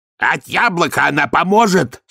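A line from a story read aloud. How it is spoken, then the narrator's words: Angry question. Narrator (Russian): сердито спросил мясник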